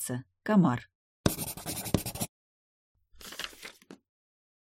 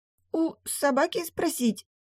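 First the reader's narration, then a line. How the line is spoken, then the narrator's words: Surprised sob. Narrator (Russian): удивленно всхлипнула Млавка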